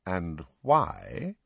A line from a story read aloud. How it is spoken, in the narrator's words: said Snape slowly